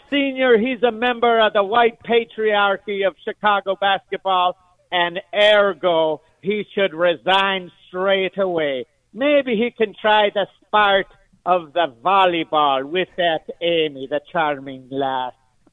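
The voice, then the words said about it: Put-on Irish brogue, fairly good. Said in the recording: “Not a bad Irish brogue”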